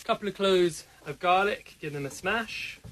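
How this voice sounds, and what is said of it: Posh British received pronunciation accent. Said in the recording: “Salt Hank with a posh accent ... quite precious. Posh. ... You can hear his Oxbridge. His received pronunciation.”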